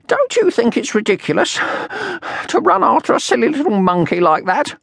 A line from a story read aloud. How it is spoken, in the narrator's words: panted at last